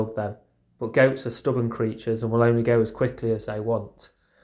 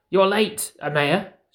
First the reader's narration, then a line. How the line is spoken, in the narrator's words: she said, her voice scratched with worry